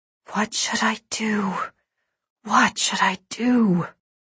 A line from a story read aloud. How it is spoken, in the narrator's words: whispering to him